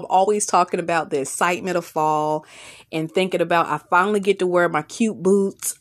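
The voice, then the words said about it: Southern American accent. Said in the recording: “my southern dialect”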